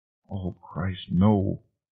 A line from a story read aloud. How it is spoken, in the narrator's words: Carol muttered